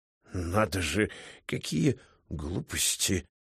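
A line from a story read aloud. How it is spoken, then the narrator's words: Muttering. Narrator (Russian): пробормотал Григорий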